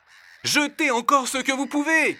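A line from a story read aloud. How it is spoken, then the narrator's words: Shouting. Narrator (French): crie-t-il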